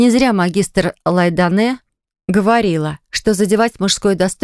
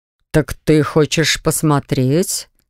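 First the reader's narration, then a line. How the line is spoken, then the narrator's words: Snort. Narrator (Russian): хмыкнул Ониксовый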